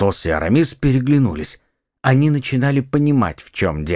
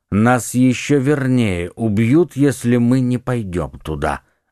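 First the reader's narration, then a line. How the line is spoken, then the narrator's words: Plain. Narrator (Russian): ответил Атос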